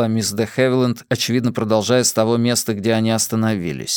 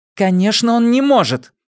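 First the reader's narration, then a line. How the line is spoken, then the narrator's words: Sharp. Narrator (Russian): резко произнесла Клеменси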